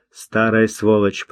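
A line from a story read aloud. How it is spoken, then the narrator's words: Grumbling. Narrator (Russian): проворчал Тавенен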